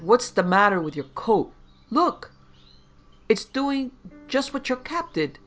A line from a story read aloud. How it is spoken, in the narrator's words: cried